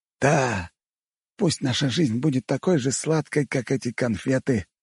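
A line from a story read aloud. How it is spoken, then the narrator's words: Whispered. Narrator (Russian): прошептал тунгус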